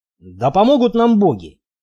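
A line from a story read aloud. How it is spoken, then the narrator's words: Grumbling with a smirk. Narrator (Russian): вечно хмурый Стоук и тот усмехнулся, проворчав неизменное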